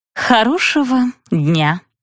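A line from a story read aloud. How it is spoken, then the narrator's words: Forced, politely indifferent. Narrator (Russian): выдавила она, вежливо равнодушно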